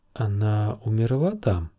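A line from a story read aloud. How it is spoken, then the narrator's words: Soft question. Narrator (Russian): мягко спросила Дэнни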